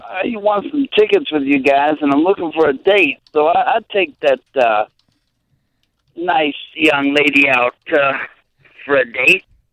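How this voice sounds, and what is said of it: DJ-style voice, young sounding older. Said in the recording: “You sound like a young guy trying to sound like an old guy. ... maybe it's my DJ voice”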